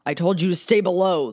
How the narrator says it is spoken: growled, only inches from her face

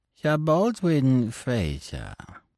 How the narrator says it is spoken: began Fu Manchu, in that indescribable voice, alternating between the sibilant and the guttural

